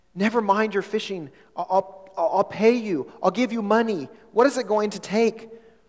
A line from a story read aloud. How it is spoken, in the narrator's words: Hudson Taylor called out desperately